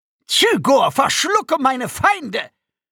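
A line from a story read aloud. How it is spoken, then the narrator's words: Alien screaming. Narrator (German): schrie der Akonide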